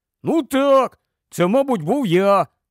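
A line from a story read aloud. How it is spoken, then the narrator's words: Plain. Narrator (Ukrainian): сказав Рон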